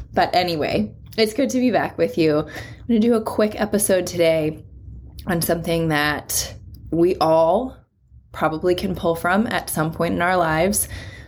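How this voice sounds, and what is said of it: Hoarse, sick-sounding voice. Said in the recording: “I apologize for the state of my voice ... I've been sick ... another round of summer colds ... my voice is a little bit on the fritz today”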